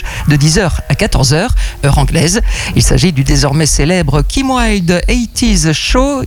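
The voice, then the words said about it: Improved English accent. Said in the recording (French): “vous ayez fait des progrès en... En accent anglais, bravo, bravo.”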